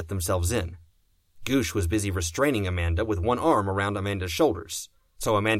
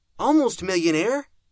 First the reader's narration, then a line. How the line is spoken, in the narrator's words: Amanda squealed